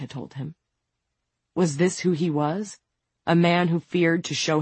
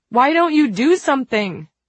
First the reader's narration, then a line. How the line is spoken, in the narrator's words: someone shouted